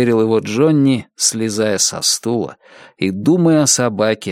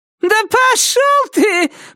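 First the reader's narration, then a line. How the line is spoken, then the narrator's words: Shouting, then cackling. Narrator (Russian): прокричал в ответ Кларисса и снова загоготала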